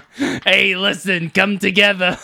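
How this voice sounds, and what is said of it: Generic New Yorker character voice. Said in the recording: “It's Danny DeVito. I don't know who that voice is. ... It's just General New Yorker.”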